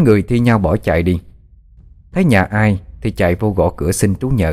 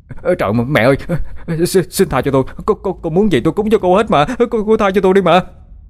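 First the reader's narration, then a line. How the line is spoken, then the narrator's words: Terrified cry. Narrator (Vietnamese): Nó sợ hãi la lên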